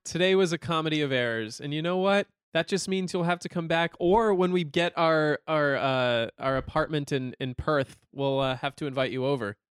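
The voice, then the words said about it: American accent. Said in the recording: “I'm going to keep my American accent.”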